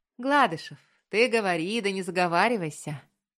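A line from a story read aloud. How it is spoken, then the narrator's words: Mocking drawl. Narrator (Russian): Насмешливо протянул Пронин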